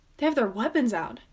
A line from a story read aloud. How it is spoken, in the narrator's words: she gasps